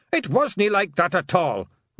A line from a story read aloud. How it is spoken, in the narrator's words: roared Rob Anybody